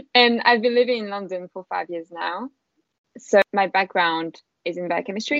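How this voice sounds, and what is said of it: French accent. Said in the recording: “I'm from France, as you can probably tell with my beautiful accent.”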